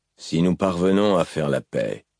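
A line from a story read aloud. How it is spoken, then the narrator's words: Musing voice. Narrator (French): reprit Dalinar d'une voix songeuse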